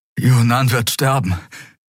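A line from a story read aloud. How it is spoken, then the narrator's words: Gasping. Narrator (German): keuchte Kai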